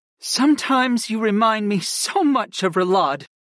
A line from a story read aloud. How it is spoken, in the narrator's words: Kristen sighed